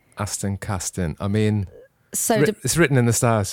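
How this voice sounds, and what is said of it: Strong Welsh accent. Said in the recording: “is very Welsh.”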